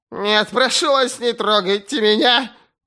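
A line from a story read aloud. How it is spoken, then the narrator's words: Shrill whimper. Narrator (Russian): визгливо проскулил знакомый голос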